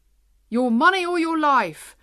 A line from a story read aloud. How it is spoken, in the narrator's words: cried the policeman loudly